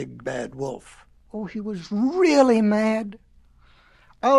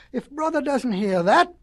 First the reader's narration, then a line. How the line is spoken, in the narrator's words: cried the little pigs